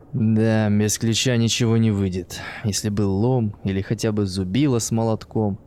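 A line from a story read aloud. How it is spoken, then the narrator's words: Sighing. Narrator (Russian): вздохнул он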